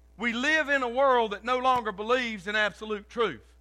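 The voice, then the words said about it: Loud, excited preaching. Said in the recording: “I don't know why I'm talking so loud. I'm going to be out of air in a minute. I'm excited.”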